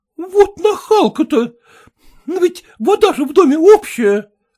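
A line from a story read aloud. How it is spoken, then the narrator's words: Irritated. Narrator (Russian): раздраженно проговорила Екатерина Антоновна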